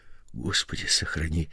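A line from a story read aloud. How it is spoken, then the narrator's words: Fearful whisper. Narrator (Russian): в страхе прошептал Николай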